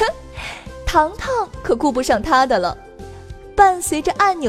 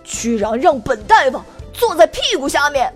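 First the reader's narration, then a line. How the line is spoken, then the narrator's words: Angry shout. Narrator (Chinese): 他只能气愤的大喊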